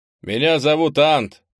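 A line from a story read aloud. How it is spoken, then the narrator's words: Loud speech. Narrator (Russian): Говорить пришлось громко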